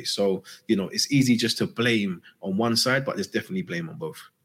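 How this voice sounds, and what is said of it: Birmingham Brummie accent. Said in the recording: “from his accent, is from Brumtown”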